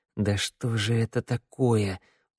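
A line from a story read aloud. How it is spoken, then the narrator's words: Through gritted teeth. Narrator (Russian): процедил сквозь зубы Теодор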